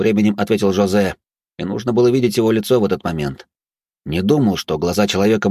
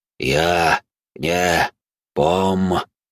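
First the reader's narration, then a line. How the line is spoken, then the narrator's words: Sepulchral voice. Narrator (Russian): ответил хозяин Черного города все тем же замогильным голосом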